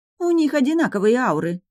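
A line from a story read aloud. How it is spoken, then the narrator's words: Exclaiming. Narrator (Russian): воскликнула Минелли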